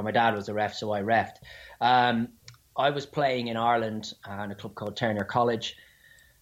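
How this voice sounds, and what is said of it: Strong Dublin Irish accent. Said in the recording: “you've got that strong ... accent ... Dublin accent”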